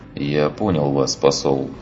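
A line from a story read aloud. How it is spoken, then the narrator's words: Dejected tone. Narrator (Russian): подавленным тоном ответил он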